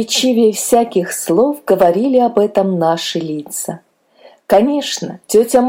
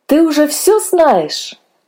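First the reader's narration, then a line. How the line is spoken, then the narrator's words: Joyful question. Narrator (Russian): радостно спросили мы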